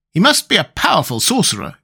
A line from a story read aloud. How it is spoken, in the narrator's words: exclaimed the Tin Woodman